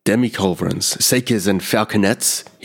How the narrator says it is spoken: he grunted

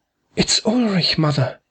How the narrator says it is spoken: Louise Hauser exclaimed

